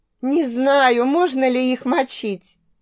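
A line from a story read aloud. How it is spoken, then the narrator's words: Laughing. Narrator (Russian): Смеялась я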